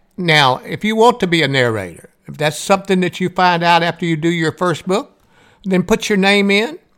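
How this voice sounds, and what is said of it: Southern American accent. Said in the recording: “I have a southern voice. There's nothing I can do about my accent and how I talk.”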